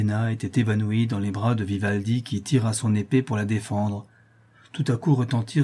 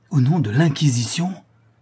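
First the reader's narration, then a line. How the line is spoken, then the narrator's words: Incredulous exclamation. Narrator (French): s'écrie Vivaldi, qui croyait à peine ce qu'il entendait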